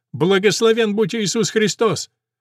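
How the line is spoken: Shouted in chorus, warriors. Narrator (Russian): Воины католической стражи хором крикнули

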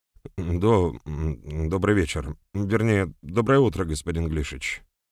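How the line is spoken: Mumbled by a young man. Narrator (Russian): промямлил юноша

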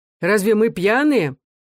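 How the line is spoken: Exclaiming. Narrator (Russian): воскликнул Павел

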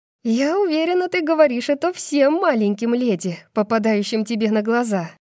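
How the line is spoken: Half laughing, half hysterical. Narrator (Russian): говорю, наполовину смеясь, наполовину пребывая в истерике

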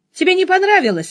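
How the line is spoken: Cheerful question. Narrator (Russian): спросил весело

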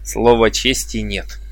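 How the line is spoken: Laughing. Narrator (Russian): рассмеялся он

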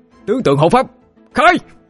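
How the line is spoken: Sudden shout. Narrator (Vietnamese): đột nhiên ba ngỗng hét lên một tiếng

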